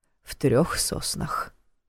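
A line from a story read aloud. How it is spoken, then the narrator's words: Breathed out. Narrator (Russian): выдохнул Нев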